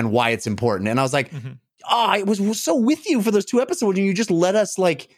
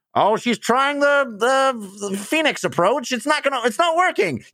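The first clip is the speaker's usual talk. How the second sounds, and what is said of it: Sports announcer impression. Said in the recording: “Pretty good impression of the announcer.”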